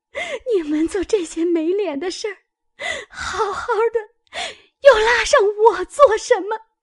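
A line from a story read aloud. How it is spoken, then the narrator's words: Speaking while brawling. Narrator (Chinese): 说着也把鲍二家的厮打起来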